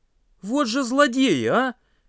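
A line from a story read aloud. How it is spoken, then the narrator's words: Exclaimed. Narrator (Russian): воскликнул Паша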